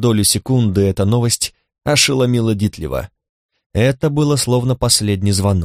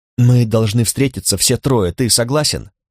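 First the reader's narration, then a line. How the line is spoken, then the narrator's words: Anxious whisper. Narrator (Russian): говорил Ульрик шепотом, словно Кимми уже выследила его и вот-вот окажется рядом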